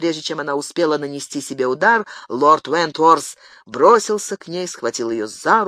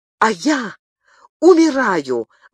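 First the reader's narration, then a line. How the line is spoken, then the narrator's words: Exclaimed. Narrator (Russian): воскликнула Диана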